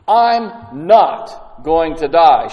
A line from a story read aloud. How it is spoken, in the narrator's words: said firmly